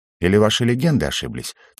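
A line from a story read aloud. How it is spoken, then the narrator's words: Quiet. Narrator (Russian): тихо ответил Угорь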